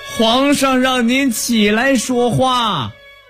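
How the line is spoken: Loud call. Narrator (Chinese): 张善德低下头去大声喊道

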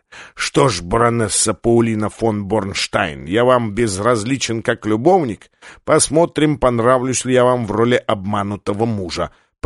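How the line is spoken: Hissing. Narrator (Russian): прошипел Ван Хорн

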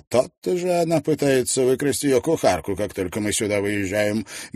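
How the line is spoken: Grumbling. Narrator (Russian): Сэндбах заворчал

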